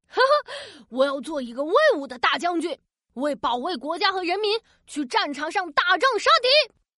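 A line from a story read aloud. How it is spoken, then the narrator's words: Loud shout. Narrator (Chinese): 大声喊道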